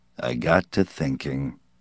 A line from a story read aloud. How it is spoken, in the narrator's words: Yancey said, and his voice was deeper, slower